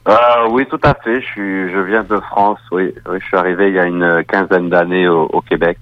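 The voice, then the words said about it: French-from-France accent. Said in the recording (French): “on va entendre dans votre accent. Est-ce que c'est un accent qui nous provient de la France?”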